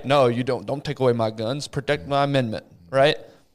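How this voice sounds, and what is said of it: Put-on hillbilly accent. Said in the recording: “I don't know why I just put a weird accent on that. ... A hillbilly right winger.”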